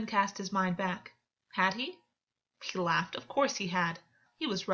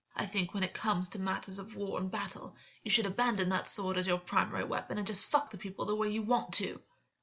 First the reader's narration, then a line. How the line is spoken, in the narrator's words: August spat, a flicker of anger and outrage moving over his face